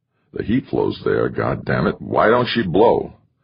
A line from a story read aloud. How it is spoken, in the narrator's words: Sal muttered